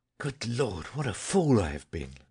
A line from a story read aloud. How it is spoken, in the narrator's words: he said hotly and abruptly